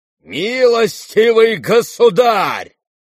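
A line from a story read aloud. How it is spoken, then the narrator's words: Thunderous shout. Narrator (Russian): закричал он громовым голосом Птицыну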